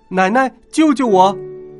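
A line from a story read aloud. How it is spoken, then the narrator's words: Loud cry. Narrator (Chinese): 他大叫一声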